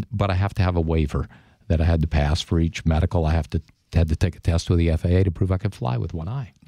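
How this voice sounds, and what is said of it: Smooth, mellifluous radio voice. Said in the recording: “you definitely have a radio voice. ... It's so mellifluous.”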